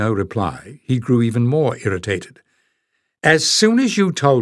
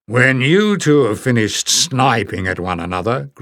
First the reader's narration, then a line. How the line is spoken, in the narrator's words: growled Barda